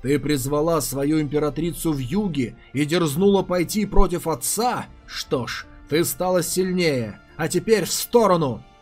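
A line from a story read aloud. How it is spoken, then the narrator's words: Growl. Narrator (Russian): прорычал Едзун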